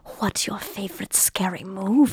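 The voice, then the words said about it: Imitated Ghostface phone voice. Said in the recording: “Ghostface's little phone voice is definitely sexy”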